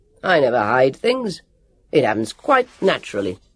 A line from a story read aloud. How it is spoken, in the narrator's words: the Semperton roared